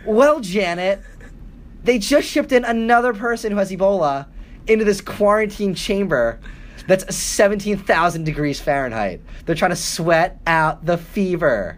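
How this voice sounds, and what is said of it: TV news reporter voice. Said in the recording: “This is my Channel 1 impersonation.”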